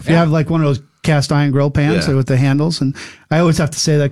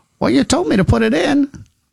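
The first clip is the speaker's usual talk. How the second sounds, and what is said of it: Put-on old person voice. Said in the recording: “Is that your old person? ... Voice? ... I think that was my New England accent. ... No, it wasn't. But it was a good effort.”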